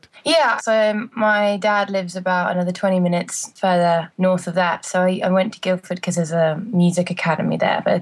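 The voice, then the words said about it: British accent. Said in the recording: “you have a lovely accent ... The accent's British”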